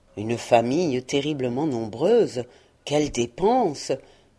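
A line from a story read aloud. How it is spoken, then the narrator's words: Murmuring. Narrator (French): murmura Scrooge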